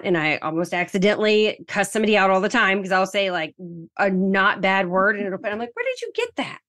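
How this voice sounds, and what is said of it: Southern American accent. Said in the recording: “my weird Southern accent”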